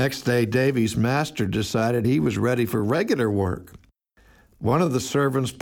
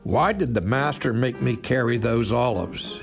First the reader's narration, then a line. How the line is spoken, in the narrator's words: he grumbled to old Barnabas